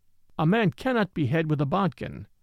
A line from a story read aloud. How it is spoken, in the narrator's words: said Brown calmly